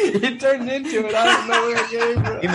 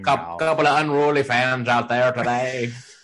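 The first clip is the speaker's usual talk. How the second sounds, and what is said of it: Imitates a sports announcer's voice. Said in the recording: “Is that your Faraday impression?”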